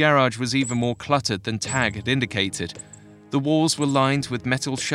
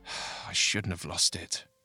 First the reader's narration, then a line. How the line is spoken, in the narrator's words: he muttered